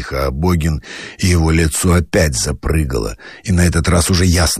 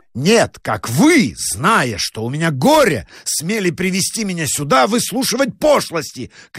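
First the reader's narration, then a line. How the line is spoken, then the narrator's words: Shout. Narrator (Russian): крикнул доктор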